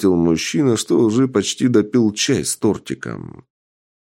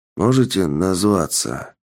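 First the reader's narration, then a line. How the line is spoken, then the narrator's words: Weak hoarse exhausted man. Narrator (Russian): Слабым и хриплым голосом поинтересовался среднего роста бородатый мужчина, что выглядел как маг после долгого использования энергоядер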